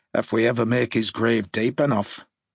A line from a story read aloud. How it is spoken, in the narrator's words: Harper grumbled